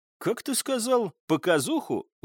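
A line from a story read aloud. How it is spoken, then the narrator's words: Surprised. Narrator (Russian): удивился Николай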